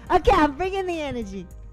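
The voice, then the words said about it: Loud, screaming delivery. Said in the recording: “stop screaming.”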